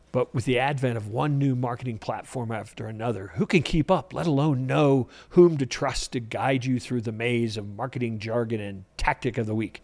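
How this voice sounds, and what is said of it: Storytelling narration voice. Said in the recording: “in my telling story voice.”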